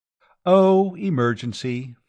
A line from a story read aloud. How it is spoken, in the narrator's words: Flora said